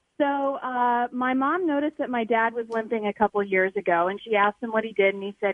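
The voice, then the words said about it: North Dakota accent. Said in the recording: “the North Dakota accent”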